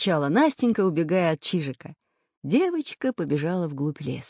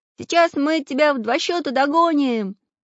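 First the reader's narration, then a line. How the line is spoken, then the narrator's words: Cheerful shout. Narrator (Russian): весело закричал Прутик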